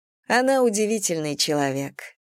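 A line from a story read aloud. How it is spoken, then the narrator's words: Plain. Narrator (Russian): сказала Анна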